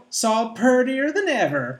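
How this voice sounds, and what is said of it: Heavy Southern American accent. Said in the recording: “She's got a very heavy Southern American accent.”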